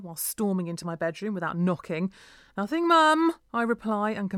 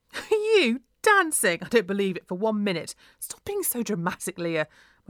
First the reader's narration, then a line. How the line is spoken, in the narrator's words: mum burst out laughing